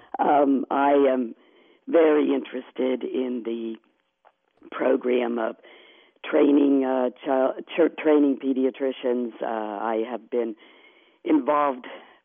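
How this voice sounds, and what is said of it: Congested voice from a cold. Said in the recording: “I have a cold, so my voice is not very good”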